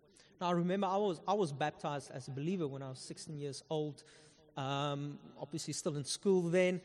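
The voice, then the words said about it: Afrikaner South African accent. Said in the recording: “I'm Afrikaner, if you can hear from my accent.”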